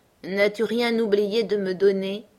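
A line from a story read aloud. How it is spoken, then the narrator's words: Friendly grunting question. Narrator (French): interrogea-t-il avec un petit grognement d'amitié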